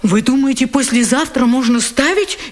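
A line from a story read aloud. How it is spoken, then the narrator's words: Frightened question. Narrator (Russian): испуганно спрашивает автор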